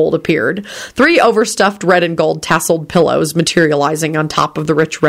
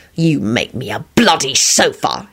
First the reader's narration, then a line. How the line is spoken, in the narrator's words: he snarled